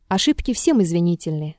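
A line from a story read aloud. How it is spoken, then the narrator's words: Calm objection. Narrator (Russian): спокойно возразил Ромеев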